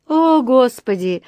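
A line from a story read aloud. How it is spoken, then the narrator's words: Sighing. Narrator (Russian): вздохнула миссис Браун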